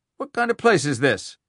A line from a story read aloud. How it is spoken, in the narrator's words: Dellray barked suddenly, ... horrified